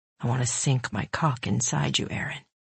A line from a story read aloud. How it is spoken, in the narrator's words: he whispered